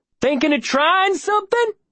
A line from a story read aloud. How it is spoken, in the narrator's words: He yells